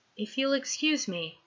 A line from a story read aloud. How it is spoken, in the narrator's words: Peter murmurs